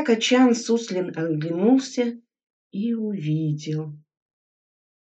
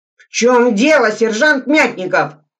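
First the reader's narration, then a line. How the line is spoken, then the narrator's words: Menacing shout. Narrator (Russian): грозно крикнул Суслин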